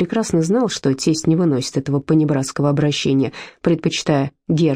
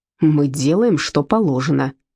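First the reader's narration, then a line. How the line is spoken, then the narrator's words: Growling. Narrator (Russian): рыкнул Герр Таубер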